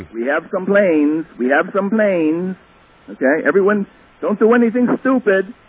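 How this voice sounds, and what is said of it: Imitation of Mohamed Atta's accent. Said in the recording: “I heard that accent. That was his voice. ... Muhammad Atta”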